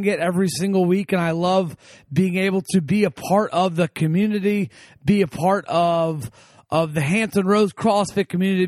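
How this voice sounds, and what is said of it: Hoarse, slightly strained voice. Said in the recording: “my voice is still a little hoarse, still recovering from this past weekend”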